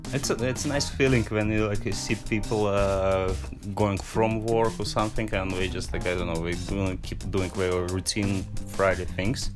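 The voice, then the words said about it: Russian accent. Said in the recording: “Originally, I'm from Russia, so we won't have no more questions about the accent.”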